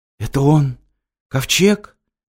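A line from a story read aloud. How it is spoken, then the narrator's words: Hoarse boy. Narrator (Russian): сипло проговорил мальчик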